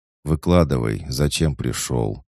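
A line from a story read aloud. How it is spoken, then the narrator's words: Tired. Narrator (Russian): устало сказал я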